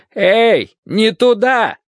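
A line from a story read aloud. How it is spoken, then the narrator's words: Man shouting. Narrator (Russian): закричал мужчина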